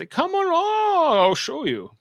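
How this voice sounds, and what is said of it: Old man voice. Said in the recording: “That's my old man voice.”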